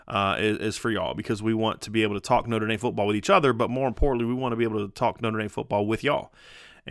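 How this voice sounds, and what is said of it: Slight country accent. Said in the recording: “I'm saying a lot more y'alls and getting that little country accent back a little bit”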